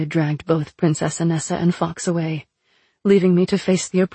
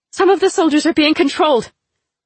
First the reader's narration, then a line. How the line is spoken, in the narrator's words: I yelled behind me